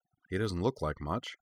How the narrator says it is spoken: Kaname muttered to herself

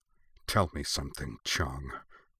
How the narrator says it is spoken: she snarled through gritted teeth

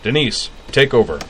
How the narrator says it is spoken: He barked

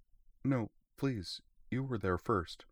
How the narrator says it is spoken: the girl replied in a soft, timid voice, her cheeks going pink

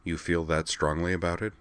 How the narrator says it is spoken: he asked her calmly

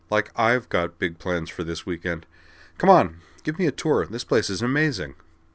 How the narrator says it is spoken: said dryly

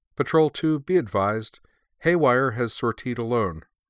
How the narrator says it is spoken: said Perrine

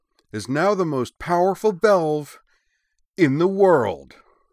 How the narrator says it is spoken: Griffin declared, his voice now raised to a gleeful shout over the angry howl of the little engine

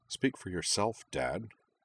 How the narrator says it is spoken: Kaname muttered

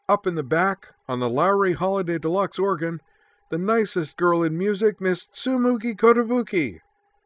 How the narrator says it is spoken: she cried

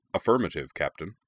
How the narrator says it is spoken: Fisto's voice replied

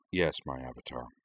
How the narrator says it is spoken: murmured in a barely audible voice

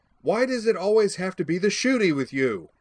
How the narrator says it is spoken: I yelled in her ear

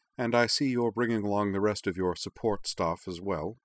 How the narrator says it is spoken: the doctor added dryly

